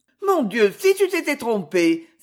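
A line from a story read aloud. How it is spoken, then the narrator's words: Exclaimed. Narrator (French): s'exclama Lucie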